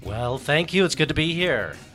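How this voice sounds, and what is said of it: Polished radio announcer voice. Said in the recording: “He's already turning on the radio voice.”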